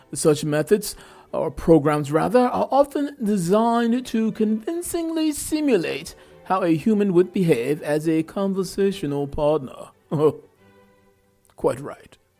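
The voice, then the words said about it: Bad fake European accent. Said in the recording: “my fake European accent ... my bad fake European accent”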